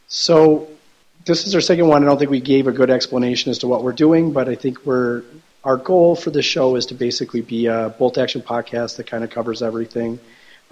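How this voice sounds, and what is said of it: Congested voice from a cold. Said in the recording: “with the wonderful voice this week. ... I have a cold, so sorry.”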